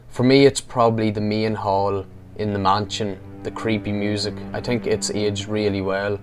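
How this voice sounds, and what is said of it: Strong regional accent. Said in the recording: “what a great accent. That's the best accent we've heard on this podcast.”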